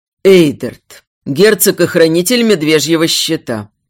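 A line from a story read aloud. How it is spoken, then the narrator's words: Growl. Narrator (Russian): прорычал всадник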